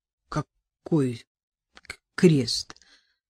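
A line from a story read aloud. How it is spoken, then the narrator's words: Strange trembling voice, questioning. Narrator (Russian): Странным, дрогнувшим голосом переспросил Чернов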